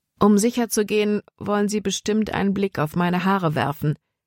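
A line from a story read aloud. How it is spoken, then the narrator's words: Plain. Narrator (German): sagte sie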